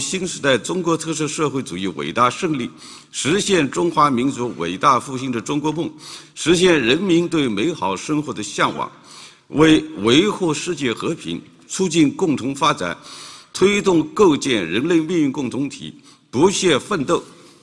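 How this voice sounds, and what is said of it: Deep bass voice, standard Mandarin. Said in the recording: “no trace of an accent, really standard 普通话, kind of a deep, kind of basso profundo voice ... sounds like a smoker to me”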